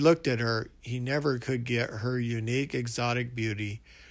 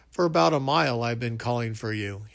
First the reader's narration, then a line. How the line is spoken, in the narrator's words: laughed